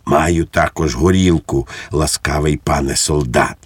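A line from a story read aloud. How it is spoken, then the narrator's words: Whisper. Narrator (Ukrainian): пейсатий пан прошепотів йому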